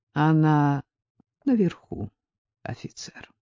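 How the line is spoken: Sad. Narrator (Russian): печально посмотрела на них и сказала

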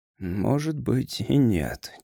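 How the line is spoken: Said quietly. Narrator (Russian): тихо сказал Грейвс

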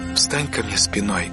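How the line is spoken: Soft request. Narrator (Russian): мягко попросила Ирма

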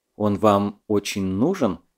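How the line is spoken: Quiet question. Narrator (Russian): тихо спросил Дуров

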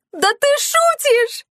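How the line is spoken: Shrieking. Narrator (Russian): завизжала Оливия

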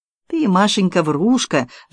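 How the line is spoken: Sighing. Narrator (Russian): вздохнула Полина

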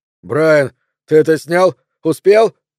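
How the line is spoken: Yelling over intercom. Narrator (Russian): заорал Троуп оператору в переговорное устройство

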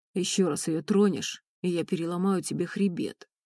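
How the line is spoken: Growled. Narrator (Russian): прорычал Ренат

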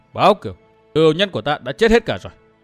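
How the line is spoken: Pained smile. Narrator (Vietnamese): Dương Viễn mỉm cười đau khổ nói

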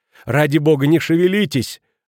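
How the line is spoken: Shouting. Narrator (Russian): закричала госпожа Кранер

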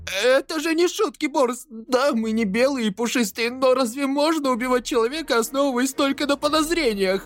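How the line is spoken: Shouting beast-man. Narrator (Russian): Крикнул зверочеловек, владелец таверны

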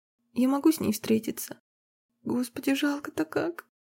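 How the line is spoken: Tearful muttering. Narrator (Russian): бормотала сквозь слезы

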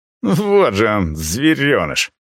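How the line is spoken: Contemptuous laugh. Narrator (Russian): презрительно рассмеялся другой студент

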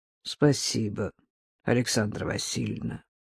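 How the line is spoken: Resigned mutter. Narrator (Russian): обреченно пробормотал Евгений

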